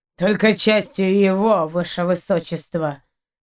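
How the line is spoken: Through gritted teeth, interrupting. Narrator (Russian): процедил капитан сквозь зубы, перебивая Эдерику

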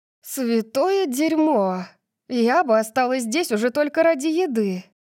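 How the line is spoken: Moaning. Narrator (Russian): Простонала я

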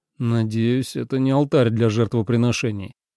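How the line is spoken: Gloomy. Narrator (Russian): мрачно произнес Ленард

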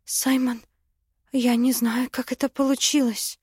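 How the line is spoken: Frightened babbling. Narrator (Russian): испуганно залепетала она

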